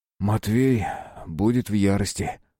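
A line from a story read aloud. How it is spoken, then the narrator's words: Sighing. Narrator (Russian): вздохнул Алексей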